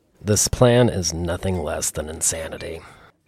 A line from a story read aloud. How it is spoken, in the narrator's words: announced in a low voice